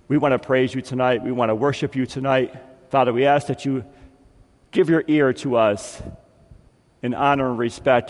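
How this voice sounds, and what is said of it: Slightly raspy, strained voice. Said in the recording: “my voice is a little bit raspy ... I don't have a booming voice, so if I talk too much, I tend to lose it”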